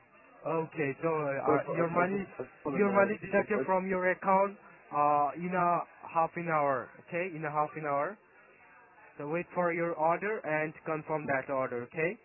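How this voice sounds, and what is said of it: Naga English accent. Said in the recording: “It's a nice accent... I'm from Nagaland, so that's why my accent is like that.”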